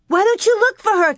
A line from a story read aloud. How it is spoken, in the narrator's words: Carrie cried